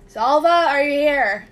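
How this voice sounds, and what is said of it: Calling out loudly, not quite shouting. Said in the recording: “not shouting, but kind of loudly”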